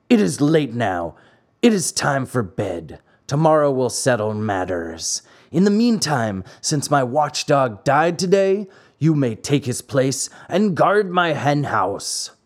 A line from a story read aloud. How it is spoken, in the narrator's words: said to him roughly